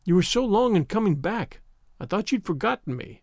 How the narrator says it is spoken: cried Avery

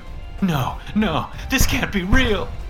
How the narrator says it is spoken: the cheating little coward cried

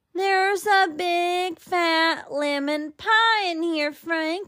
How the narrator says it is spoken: I hollered

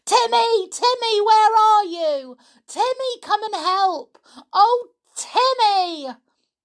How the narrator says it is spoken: She screamed loudly

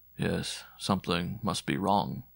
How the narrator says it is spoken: murmured the priest

